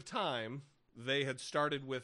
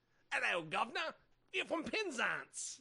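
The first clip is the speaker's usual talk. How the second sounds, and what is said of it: Poor put-on British accent. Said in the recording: “I should be actually using a a British accent ... your accents are terrible”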